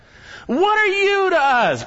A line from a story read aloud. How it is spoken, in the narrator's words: they're yelling out